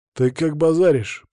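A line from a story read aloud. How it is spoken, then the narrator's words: Hissed through teeth. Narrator (Russian): процедил он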